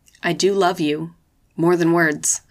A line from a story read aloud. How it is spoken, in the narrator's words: said